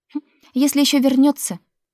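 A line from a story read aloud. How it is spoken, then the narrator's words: Snorting. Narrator (Russian): фыркнула Лика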